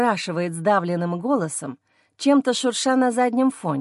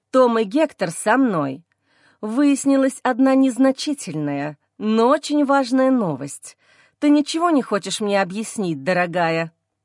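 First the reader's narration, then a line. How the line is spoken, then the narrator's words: Through gritted teeth. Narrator (Russian): Цежу слова сквозь зубы, не оставляя сомнений, в каком я настроении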